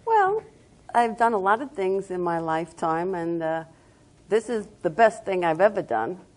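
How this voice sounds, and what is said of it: Long Island New York accent. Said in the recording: “as everybody knows by my accent, I'm from Long Island, New York. As soon as I open my mouth, that's what everybody says, oh, you're from New York.”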